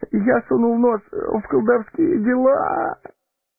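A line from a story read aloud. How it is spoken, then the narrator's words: Whimpering. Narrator (Russian): Захныкал Пипин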